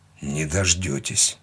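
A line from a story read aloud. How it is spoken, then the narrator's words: Hoarse wheeze. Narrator (Russian): прохрипел он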